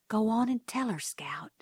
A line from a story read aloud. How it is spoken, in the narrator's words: someone whispered